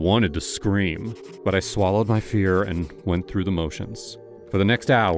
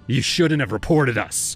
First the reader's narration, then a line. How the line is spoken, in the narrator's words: he spat